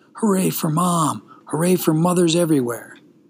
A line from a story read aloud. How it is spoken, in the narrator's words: in his mind he shouted